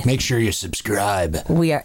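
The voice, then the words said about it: Scary put-on voice. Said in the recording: “That was a scary voice.”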